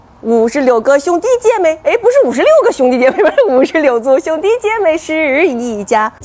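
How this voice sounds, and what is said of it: Mixed northern Chinese regional accent. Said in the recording (Chinese): “好多人呢说我说的不是北京话…我这个口音里头，呃，融合了什么天津话呀，啊，什么保定的呀，啊，石家庄的呀，什么张家口的呀，还有什么潍坊的呀”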